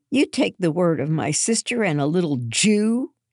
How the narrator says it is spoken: spat

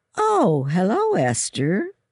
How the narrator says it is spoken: Mother Matthews said in a cheerful voice

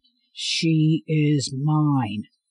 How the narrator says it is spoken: Wolf repeated, his voice tinged with a low growl

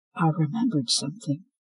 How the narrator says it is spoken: she whispered

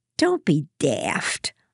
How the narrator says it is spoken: Lydia snapped

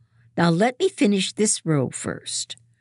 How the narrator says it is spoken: she snaps

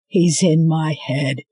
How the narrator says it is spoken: he said, his voice a rumbling growl

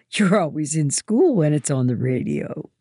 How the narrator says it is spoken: she laughs

